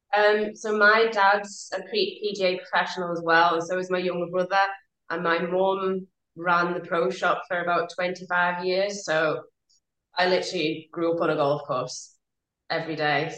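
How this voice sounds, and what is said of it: Slight Scottish-sounding British accent. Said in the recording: “you sound Scottish ... I might have a bit of a Scottish twang”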